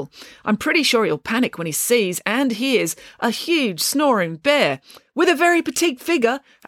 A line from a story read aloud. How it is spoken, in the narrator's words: added hastily